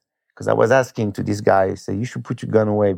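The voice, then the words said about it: Foreign accent. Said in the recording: “He heard my accent ... I don't want one with an accent.”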